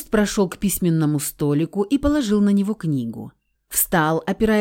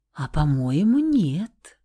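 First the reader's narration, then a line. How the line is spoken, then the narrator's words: Charming cooing voice. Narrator (Russian): проворковала я самым обворожительным голоском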